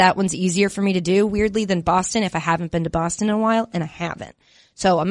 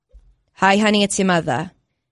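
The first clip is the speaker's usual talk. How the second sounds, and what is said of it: Weak Long Island accent impression. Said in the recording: “bad my impersonation of my mom is ... very easy to slide into a Long Island accent ... it's not great”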